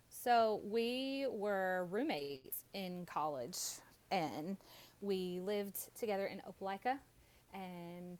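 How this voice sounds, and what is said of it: Alabama Southern accent. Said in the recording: “These people are Alabama. ... Opelika, Alabama. ... they could probably tell by your accent.”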